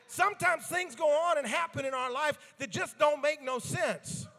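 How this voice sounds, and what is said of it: Southern American accent. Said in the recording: “speak a little Southern ... that Southern just comes out”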